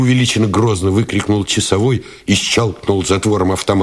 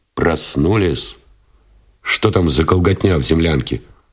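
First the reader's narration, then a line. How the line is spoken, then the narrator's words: Displeased question. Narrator (Russian): спросил Новиков недовольным тоном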